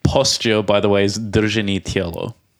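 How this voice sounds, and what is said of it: Russian accent. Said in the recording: “That was a very Russian accent that I just said it in.”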